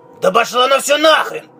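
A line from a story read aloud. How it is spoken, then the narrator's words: Irritated. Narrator (Russian): раздраженно сказал Тайкус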